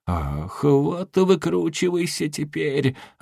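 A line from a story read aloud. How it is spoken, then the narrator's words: Sigh. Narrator (Russian): вздохнул генерал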